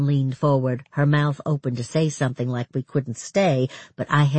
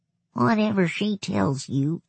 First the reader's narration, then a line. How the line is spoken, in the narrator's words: he said in a hoarse whisper